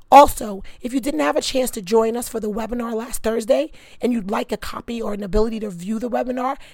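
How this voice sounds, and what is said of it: Hoarse, strained voice. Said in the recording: “I apologize for my voice. ... My voice will be better, hopefully”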